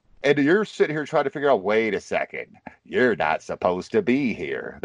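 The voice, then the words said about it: Cheesy imitation of another person's voice. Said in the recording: “my cheesy Jack Nicholson impression ... It was pretty good. Not bad. ... No, it was horrible.”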